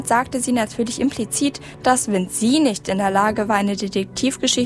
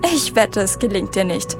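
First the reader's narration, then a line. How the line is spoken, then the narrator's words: Mocking with laughter. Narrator (German): spottete Madge und lachte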